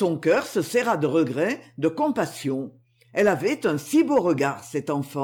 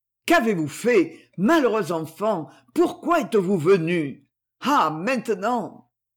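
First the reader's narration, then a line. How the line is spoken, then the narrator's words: Trembling cry. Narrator (French): Elle s'écria, toute frémissante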